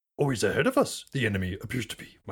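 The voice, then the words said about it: Yoda impression. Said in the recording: “terrible yoda impression actually that was pretty good”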